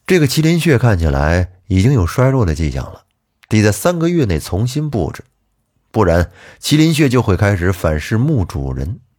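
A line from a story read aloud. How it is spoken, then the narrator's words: Light chuckle. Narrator (Chinese): 我轻笑了一声说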